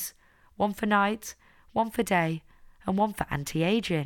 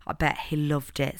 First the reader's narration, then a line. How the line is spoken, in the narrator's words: said Lily